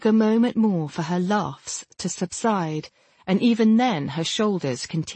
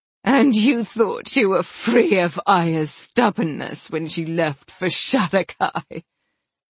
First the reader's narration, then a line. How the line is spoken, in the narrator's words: She laughed again, louder than before